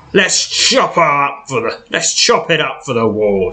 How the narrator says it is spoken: snarls Eldrin

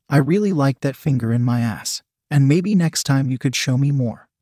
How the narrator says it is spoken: she said sweetly

